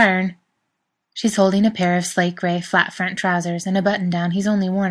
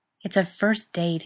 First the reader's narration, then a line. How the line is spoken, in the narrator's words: he mutters